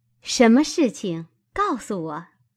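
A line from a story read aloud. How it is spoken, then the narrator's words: Laughing question. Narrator (Chinese): 袭人，笑着……问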